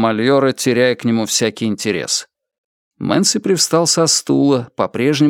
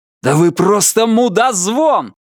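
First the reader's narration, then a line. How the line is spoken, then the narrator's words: Yell. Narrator (Russian): заорал он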